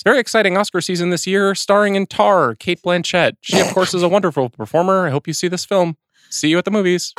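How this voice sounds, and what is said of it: Imitates a sports broadcaster's voice. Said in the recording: “As John Smoltz calling the NLCS ... that voice work that you just did ... Do that voice”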